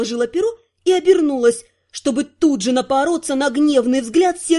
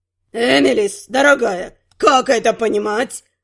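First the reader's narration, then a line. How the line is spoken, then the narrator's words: Growled. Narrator (Russian): Рыкнул Центрус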